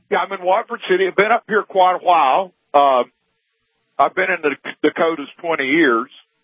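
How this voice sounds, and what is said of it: Slight Southern American accent. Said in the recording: “Still got that Alabama accent a little bit, though ... Southern accent”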